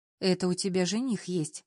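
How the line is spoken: Sighing. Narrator (Russian): тоже вздохнула Лиза

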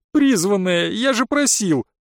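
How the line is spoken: Groan. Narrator (Russian): простонал Ориант

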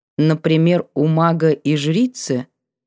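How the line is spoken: Thoughtful drawl. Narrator (Russian): протянула задумчиво

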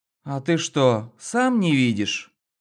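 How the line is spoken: Bored tone. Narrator (Russian): скучающим тоном ответила

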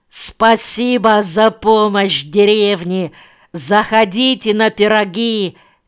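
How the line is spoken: Shouting. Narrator (Russian): кричал Рулев

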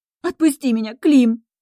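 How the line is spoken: Sobbing. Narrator (Russian): всхлипывает

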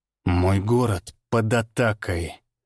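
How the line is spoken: Through clenched teeth. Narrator (Russian): процедил он сквозь стиснутые зубы

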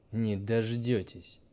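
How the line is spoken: Grumbling. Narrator (Russian): проворчал учитель

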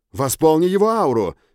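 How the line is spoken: Shout while running. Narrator (Russian): крикнул я Триш на бегу

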